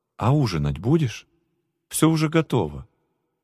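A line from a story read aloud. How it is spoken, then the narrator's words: Calm, restrained. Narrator (Russian): сдержавшись, она спокойно сказала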